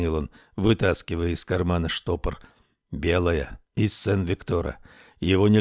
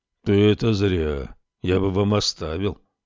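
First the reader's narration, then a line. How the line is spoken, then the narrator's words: Embarrassed low booming. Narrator (Russian): сконфуженно прогудел полуночник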